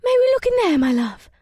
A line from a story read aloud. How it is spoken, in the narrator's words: squealed in her excitement